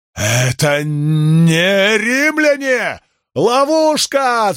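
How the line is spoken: Alarmed shout. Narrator (Russian): закричал Вариний

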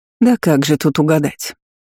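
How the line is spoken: Sly, deliberate sigh. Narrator (Russian): Лукаво нахмурилась королева и нарочито вздохнула, затягивая паузу

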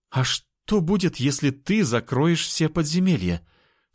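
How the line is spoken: Plain. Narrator (Russian): спросила женщина

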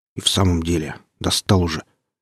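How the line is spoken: Grumble from nearby table. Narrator (Russian): буркнул кто-то за соседним столом

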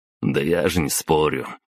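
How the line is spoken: Snorting. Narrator (Russian): Хмыкнул

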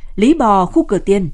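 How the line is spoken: Joyful shout. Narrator (Vietnamese): Hải hét lên mừng rỡ

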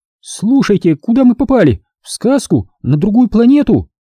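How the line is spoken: Sudden exclamation. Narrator (Russian): вдруг воскликнула Анжела

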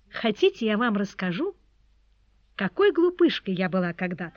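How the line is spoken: Plain. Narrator (Russian): сказала Тони

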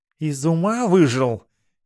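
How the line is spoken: Displeased cat hissing. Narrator (Russian): недовольно прошипел кот

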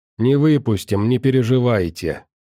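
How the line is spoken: Dry, smiling. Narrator (Russian): сухо улыбнулся Ганс

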